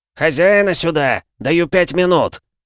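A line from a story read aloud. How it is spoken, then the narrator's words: Shouted. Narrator (Russian): прокричал один из гостей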